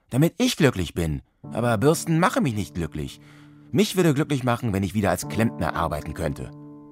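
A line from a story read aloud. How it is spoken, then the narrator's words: Calling out. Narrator (German): rief Mario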